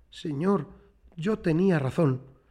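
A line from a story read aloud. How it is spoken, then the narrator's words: Stammering with great effort. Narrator (Spanish): Juntó todas sus fuerzas para decir balbuceando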